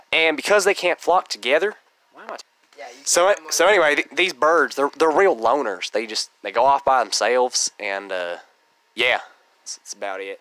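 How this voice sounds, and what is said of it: Sudden put-on accent. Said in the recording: “pardon my sudden accent.”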